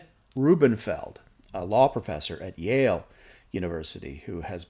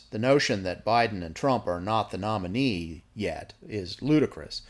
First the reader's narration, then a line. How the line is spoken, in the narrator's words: he said